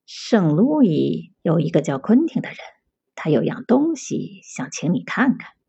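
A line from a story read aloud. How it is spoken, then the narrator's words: Wary soft voice. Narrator (Chinese): 桑乔警惕的环顾了左右，轻声说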